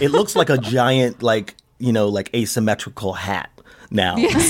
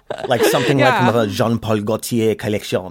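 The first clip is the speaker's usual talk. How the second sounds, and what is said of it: Bad put-on French accent. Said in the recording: “that's my bad French accent”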